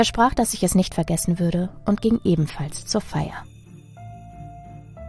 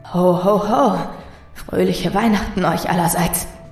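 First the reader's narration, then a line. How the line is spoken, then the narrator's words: Hoarse rough voice. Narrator (German): begann er zu sprechen, doch seine Stimme klang heiser und rau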